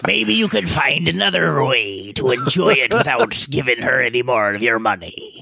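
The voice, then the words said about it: Put-on pirate accent. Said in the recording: “Don't ask why I'm saying it in this accent. ... The pirate part?”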